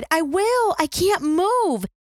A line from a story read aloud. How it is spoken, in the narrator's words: Floyd cried